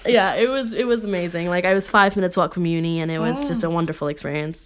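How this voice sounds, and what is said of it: Neutral general American accent. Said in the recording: “I have the American accent... she's got the American film voice, that's what you've got, the general... American... Neutral”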